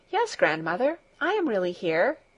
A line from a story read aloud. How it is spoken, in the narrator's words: answered Heidi in a reassuring voice